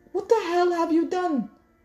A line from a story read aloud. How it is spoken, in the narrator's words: Chi-Chi shouted